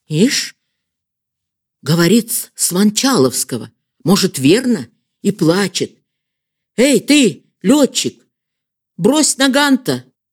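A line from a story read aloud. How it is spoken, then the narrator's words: Shouting. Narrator (Russian): Крикнули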